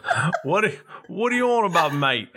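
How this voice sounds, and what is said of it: Put-on British accent. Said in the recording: “Where's your British accent,... Oh, there it is.”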